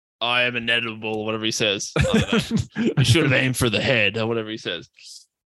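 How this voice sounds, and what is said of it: Thanos impression. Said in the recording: “give your best Thanos impersonation?”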